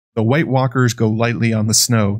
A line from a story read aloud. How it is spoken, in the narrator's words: the ranger said